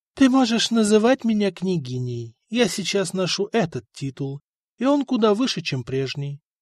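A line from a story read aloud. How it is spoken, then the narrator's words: Calm reply. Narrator (Russian): спокойно ответила ему Мария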